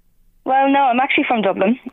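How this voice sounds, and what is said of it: Irish accent, Dublin. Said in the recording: “your accent says you're not from North Loud”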